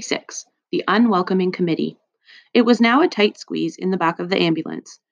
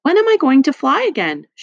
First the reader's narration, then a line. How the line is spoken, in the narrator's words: she asked brightly